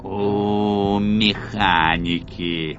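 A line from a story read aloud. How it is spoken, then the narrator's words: Creaky grumble. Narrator (Russian): проворчал скрипучим голосом злоумышленник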